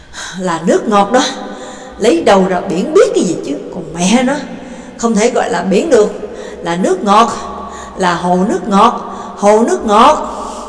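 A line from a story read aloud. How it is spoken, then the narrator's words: Loud panting speech. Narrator (Vietnamese): thở hổn hển, lớn tiếng nói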